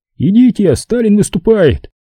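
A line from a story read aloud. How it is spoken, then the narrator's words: Shout. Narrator (Russian): связисты у радиостанции крикнули нам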